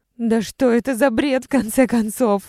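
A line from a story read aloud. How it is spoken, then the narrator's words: Frantic despairing scream. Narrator (Russian): закричала надрывно и исступленно, словно пытаясь вытолкнуть из легких разъедающее едкое отчаяние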